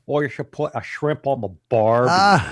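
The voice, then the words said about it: Poor put-on Australian accent. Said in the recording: “here comes my Australian accent. That is going to be an absolute fail”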